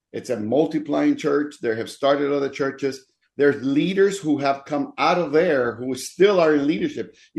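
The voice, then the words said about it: American southern accent. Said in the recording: “with a southern accent ... A Dominican with an American southern accent.”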